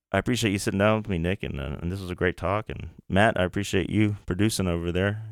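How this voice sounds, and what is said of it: Deep soothing bass radio voice. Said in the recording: “it's that soothing bass voice you got there ... Radio voice.”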